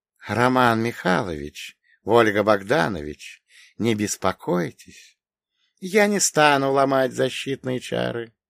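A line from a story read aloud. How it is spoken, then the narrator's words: Soft. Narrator (Russian): произнес он мягко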